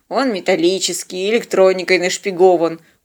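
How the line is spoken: Glum objection. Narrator (Russian): уныло возразил Бьорн

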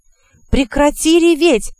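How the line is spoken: Yelled. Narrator (Russian): заорал

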